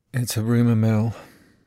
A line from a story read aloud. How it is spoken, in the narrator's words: she says, wearily, like it's not her first time